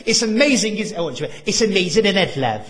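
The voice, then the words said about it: Put-on Welsh accent. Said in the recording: “That's Welsh, by the way. A Welsh accent.”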